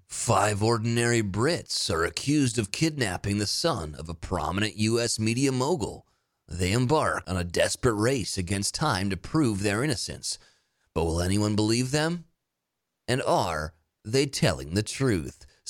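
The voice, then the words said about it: Movie trailer narrator voice. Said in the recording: “in your little movie voice”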